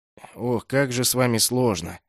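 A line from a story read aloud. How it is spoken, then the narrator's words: Exasperated muttering. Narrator (Russian): запрокинув голову и уставившись в потолок, пробормотал гвардеец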